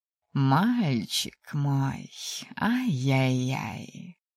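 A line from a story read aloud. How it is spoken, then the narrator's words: Mother purring. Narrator (Russian): Мурлыкнула мама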